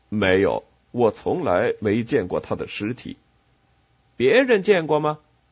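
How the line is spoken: Plain. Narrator (Chinese): 雷诺说

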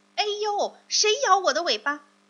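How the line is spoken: Pained yell. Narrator (Chinese): 狐狸疼得大叫起来

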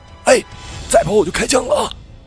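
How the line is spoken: Loud shout. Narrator (Chinese): 他大喊一声

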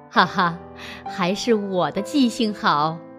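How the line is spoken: Old man, smiling. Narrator (Chinese): 伯父笑了笑，说

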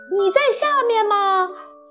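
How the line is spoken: Shouting. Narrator (Chinese): 索尔特太太大叫道

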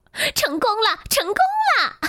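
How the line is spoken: Shouting. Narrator (Chinese): 狐狸大叫道

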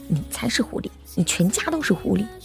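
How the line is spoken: Spiteful, through gritted teeth. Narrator (Chinese): 我恨恨的咬牙

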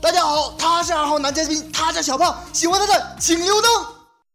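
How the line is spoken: Loud goofy shout. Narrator (Chinese): 我半夜二货大喊

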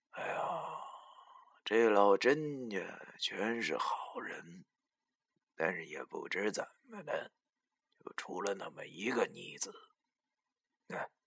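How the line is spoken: Muttering to himself. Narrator (Chinese): 文叔又喃喃自语道

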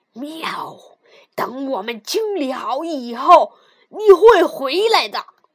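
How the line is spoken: Angry roar. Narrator (Chinese): 猫生气的大吼

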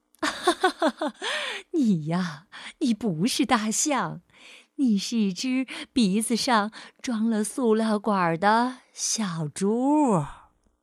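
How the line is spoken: Laughing loudly. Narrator (Chinese): 袋鼠大笑着说

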